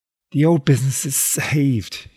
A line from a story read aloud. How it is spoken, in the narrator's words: sobbed